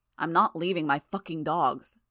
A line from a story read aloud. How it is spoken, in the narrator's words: she said, her voice hard